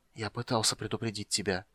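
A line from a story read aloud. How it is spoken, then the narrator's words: Young man whispering. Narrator (Russian): прошептал юноша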